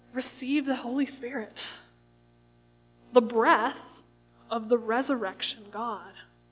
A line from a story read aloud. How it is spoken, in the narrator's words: he breathed on them and he said